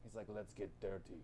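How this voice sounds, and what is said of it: Good Russian accent, imitating Colossus. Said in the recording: “that was a good Russian accent”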